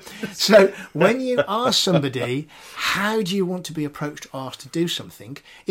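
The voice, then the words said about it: Birmingham accent. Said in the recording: “forgive the Birmingham accent”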